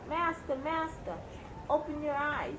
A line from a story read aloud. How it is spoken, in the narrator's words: The harp called out